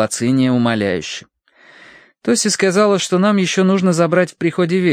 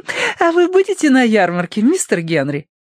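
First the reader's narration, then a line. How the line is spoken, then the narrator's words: Giggling. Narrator (Russian): хихикнула Лилия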